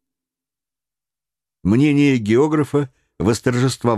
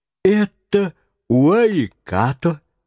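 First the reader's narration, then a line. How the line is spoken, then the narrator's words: Exclaiming. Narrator (Russian): воскликнул Паганель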